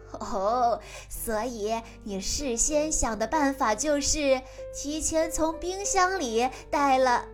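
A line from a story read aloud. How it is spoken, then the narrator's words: Laughing. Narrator (Chinese): 他笑着说道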